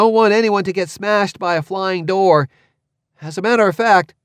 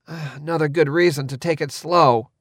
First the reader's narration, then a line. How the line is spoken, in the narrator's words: Cord muttered